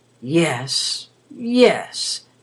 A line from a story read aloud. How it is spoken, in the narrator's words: she muttered